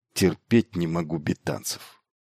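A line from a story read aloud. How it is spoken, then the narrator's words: Muttering under breath. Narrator (Russian): Хэтуэй что-то пробормотал себе под нос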